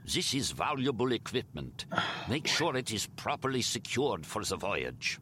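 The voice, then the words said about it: Thick German accent, villain voice. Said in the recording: “he said with a thick German accent.”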